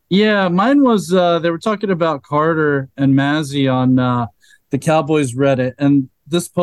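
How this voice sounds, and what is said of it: Usual voice. Nothing is said of it.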